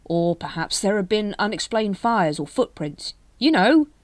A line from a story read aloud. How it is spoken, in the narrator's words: he finished desperately